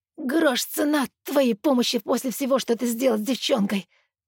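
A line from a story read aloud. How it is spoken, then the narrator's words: Hoarse rasp. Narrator (Russian): хрипит Макс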